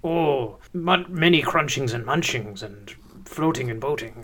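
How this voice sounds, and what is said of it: Imitates a book character's voice. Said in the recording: “I think I can do that impression easier. Gurgi sounds like this.”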